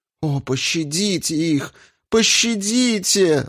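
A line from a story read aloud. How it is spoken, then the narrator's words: Girl pleading. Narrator (Russian): взмолилась девица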